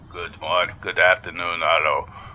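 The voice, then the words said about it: Very low, deep voice, vague accent. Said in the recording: “spoke exceptionally low with a deep voice and an undefined accent.”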